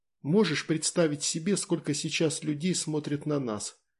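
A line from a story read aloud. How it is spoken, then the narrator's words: Whispering. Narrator (Russian): почему-то шепотом сказала Таня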